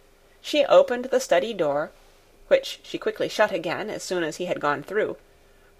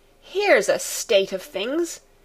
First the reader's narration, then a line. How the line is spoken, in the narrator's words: exclaimed Fräulein Rottenmeier, wringing her hands